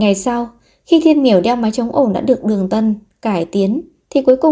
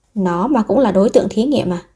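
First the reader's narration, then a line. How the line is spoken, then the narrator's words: Man muttering. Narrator (Vietnamese): ông ta lẩm bẩm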